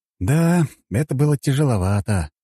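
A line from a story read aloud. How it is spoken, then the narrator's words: Sigh. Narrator (Russian): вздохнул я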